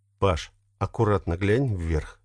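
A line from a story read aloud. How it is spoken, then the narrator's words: Quiet order. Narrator (Russian): тихонько распорядился Сергей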